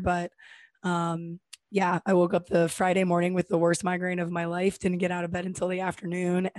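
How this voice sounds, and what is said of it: Raspy, hoarse voice. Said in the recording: “my voice was like this ... sexy voice ... Raspy”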